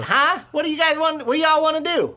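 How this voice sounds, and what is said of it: Put-on nasal southern Texas accent. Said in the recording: “I could do a southern dialect because I was born in Texas ... his is a little bit more nasally”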